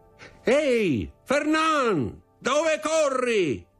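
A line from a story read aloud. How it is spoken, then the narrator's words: Shouting voice. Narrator (Italian): gridò una voce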